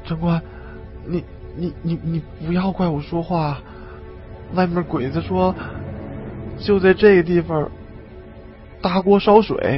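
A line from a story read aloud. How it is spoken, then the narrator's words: Stammering. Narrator (Chinese): 李二狗 结结巴巴的说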